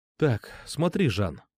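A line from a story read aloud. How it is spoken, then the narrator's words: Quiet. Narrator (Russian): тихо сказал я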